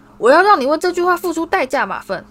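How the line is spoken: Roaring. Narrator (Chinese): 荣恩吼道

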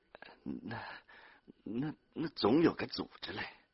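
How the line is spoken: Trembling, frightened mumble. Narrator (Chinese): 孙玉婷哆嗦着，浑身汗水淋漓，嘴里只会嘟囔着说

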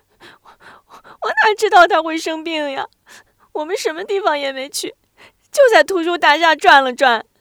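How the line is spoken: Aggrieved, crying. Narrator (Chinese): 学会感到自己很委屈，哭着说

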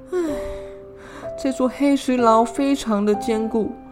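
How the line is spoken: Sighing. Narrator (Chinese): 古妹叹气说

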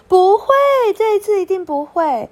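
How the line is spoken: Loud answer. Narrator (Chinese): 小安大声回答

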